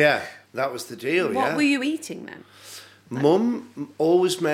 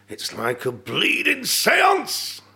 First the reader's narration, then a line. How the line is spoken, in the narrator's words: he shouted